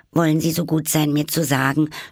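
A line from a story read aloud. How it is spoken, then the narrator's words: Slightly anxious speech. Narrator (German): sprach Alice etwas ängstlich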